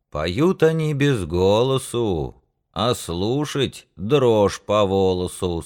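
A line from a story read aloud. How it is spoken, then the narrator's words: Plain. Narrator (Russian): сказал другой мужик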